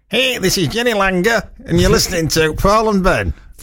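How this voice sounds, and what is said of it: Put-on American accent. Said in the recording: “in an American accent ... I thought that was an American accent ... It wasn't bad, actually ... it was good”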